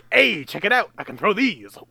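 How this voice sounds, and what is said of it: Video game character voice. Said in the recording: “That's that's a pretty good Rayman impression coming from somebody who's never played a Rayman game in their entire life or has any idea what Rayman sounds like.”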